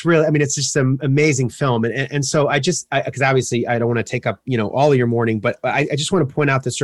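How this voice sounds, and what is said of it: Usual voice. Nothing is said of it.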